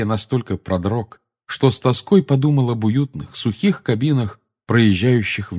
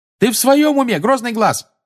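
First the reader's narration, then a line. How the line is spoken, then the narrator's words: Yelling. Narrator (Russian): заорала Тонкс, летевшая впереди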